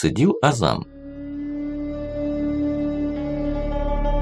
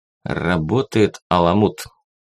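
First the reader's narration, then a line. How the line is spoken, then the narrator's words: Spoken through gritted teeth. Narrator (Russian): сквозь зубы проговорил эфенди Азам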